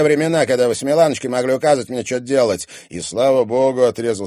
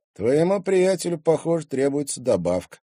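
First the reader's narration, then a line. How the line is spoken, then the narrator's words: Through gritted teeth. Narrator (Russian): процедил Тимофей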